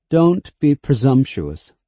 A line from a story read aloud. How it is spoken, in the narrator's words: said Laurent, coldly